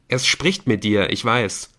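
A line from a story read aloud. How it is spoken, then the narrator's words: Plain. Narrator (German): sagte Nick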